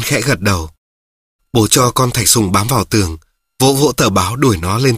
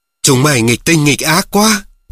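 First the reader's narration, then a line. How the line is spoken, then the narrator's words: Snapped irritably. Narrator (Vietnamese): mẹ gắt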